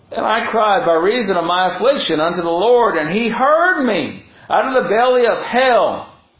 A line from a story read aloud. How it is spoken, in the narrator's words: cried I